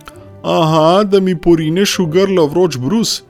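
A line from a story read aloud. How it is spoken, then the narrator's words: Calling back. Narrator (Slovenian): je on zaklical nazaj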